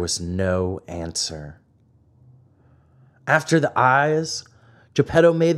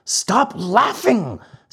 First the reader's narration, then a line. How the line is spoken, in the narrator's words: said Geppetto angrily